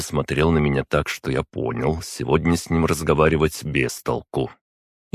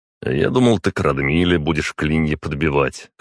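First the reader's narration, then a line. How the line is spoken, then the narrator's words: Amused grunt. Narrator (Russian): хмыкнул я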